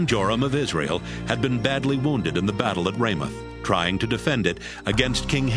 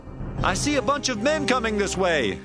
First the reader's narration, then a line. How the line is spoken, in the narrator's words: the guard in the watchtower at Jezreel, he shouted to the king